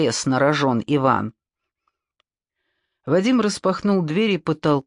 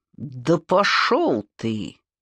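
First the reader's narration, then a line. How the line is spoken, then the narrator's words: Through gritted teeth. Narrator (Russian): процедил сквозь зубы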